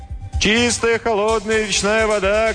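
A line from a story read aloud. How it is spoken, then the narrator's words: Street vendor shouting. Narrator (Russian): кричал разносчик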